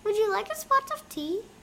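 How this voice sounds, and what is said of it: Put-on English accent. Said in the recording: “I have an English accent just like him”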